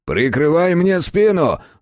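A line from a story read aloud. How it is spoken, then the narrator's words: Yelling. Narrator (Russian): заорал Санников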